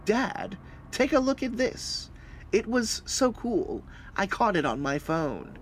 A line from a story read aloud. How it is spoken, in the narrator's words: Tyler said